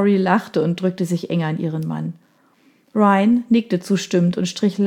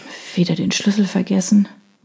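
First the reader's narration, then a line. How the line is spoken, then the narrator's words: Sighing murmur. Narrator (German): murmelte sie, während sie seufzend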